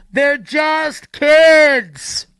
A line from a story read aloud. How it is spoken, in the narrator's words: someone else will yell